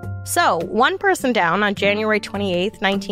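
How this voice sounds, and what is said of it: Usual voice. Nothing is said of it.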